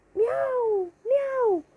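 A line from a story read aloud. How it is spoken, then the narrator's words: Shouted. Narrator (Spanish): gritó Wilbur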